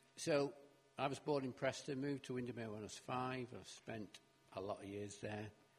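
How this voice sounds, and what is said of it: Northern English accent. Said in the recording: “As you can probably tell by the accent, we're pretty northern. Not as north as some in Scotland, maybe.”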